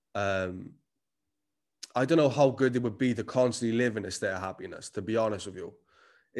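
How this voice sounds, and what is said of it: Strong Cardiff Welsh accent. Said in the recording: “I am Cardiff as fuck. The accent never left me.”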